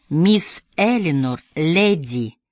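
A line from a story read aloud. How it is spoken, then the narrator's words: Slow speech. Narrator (Russian): медленно проговорил он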